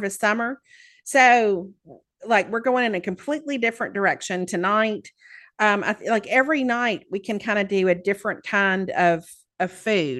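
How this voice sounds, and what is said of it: Southern American accent. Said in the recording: “I am so self-conscious about my accent here. ... Not that I have an accent, of course. ... there are Southerners”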